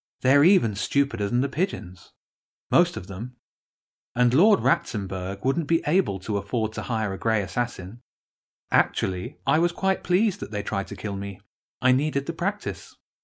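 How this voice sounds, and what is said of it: Cheerful character voice. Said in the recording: “in a more cheerful voice.”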